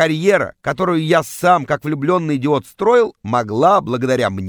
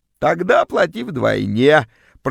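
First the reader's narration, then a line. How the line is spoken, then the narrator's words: Creaky extortionist voice. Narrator (Russian): проскрипела вымогательница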